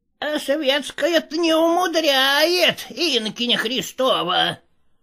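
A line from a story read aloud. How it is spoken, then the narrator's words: Squeaked. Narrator (Russian): пропищал Никита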